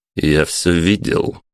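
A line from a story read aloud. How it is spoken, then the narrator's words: Rather stern. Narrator (Russian): довольно строго произнес Александр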